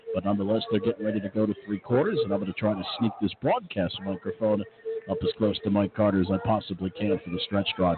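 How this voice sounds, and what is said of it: Hushed quiet golf-announcer voice. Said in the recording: “I'm kind of speaking in my golf voice right now”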